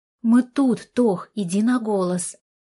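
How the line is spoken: Growling exhale. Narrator (Russian): Артур с рыком выдохнул

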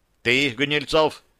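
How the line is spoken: Stern. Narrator (Russian): строго продолжил тот

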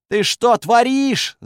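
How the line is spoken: Young man yelling. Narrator (Russian): завопил парень

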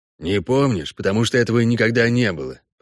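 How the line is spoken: Grumble. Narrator (Russian): проворчал Весемир

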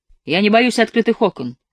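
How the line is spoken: Sharp. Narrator (Russian): резко сказал он

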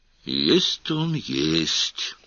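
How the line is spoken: Thoughtful drawl. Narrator (Russian): задумчиво протянул

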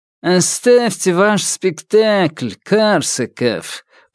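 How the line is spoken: Nasal drawl. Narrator (Russian): прогнусавил Раневский

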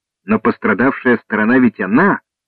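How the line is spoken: Exclamation. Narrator (Russian): воскликнул Торвард

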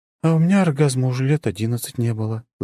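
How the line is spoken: Sigh. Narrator (Russian): вздохнула Даша

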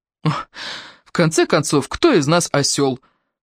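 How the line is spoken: Snorting. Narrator (Russian): фыркнул Дрю

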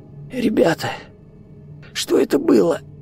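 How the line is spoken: Hoarse wheeze. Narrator (Russian): просипел Виктор

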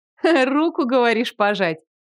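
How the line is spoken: Laughing. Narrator (Russian): Рассмеялась я

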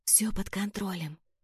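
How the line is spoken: Hurried soothing whisper. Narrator (Russian): поспешила успокоить ее я, понижая голос до шепота

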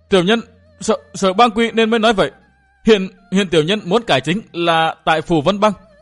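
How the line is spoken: Terrified cry. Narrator (Vietnamese): hắc y đại hán hồn phi phách tán, kêu lên thất thanh

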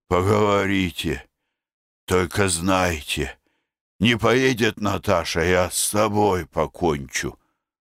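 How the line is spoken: Hoarse. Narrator (Russian): сказал хрипло

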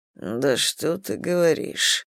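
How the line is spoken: Muttering. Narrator (Russian): пробормотал Рот

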